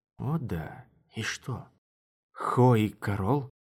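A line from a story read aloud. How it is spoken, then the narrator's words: Whisper. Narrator (Russian): Мара подошла ближе и шепнула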